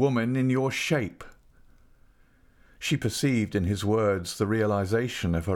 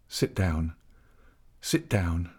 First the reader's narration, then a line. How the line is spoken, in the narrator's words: he said gently